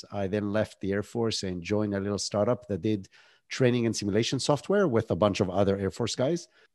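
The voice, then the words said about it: Israeli accent. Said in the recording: “I was born and raised in Israel. That's where the accent is from”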